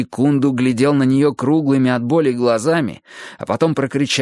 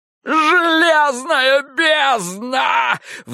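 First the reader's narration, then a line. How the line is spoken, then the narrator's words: Howled. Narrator (Russian): взвыл Киш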